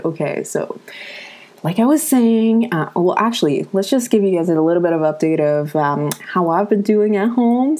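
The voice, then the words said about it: Slightly sick-sounding, odd voice. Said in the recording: “I think I'm getting a little bit sick ... my voice sounds a little bit weird”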